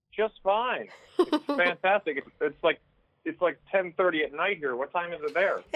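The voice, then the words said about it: Noticeable accent. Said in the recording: “I love your accent.”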